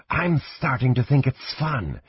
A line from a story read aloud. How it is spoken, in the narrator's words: Shanra whispered with a smothered giggle